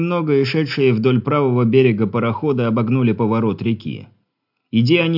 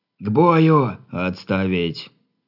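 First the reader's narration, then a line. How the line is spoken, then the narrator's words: Barked command. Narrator (Russian): рыкнул Хор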